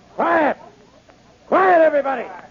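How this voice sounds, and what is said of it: Loud shouting. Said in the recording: “if you lower your voice”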